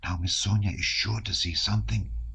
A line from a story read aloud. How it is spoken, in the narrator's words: whispered Dunyasha